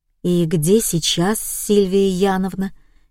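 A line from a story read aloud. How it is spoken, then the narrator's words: Quiet question. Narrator (Russian): тихо спросила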